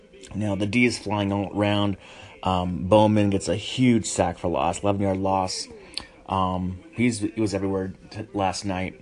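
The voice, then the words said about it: Sick, rough voice. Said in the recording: “my voice is not great, I'm a little sick”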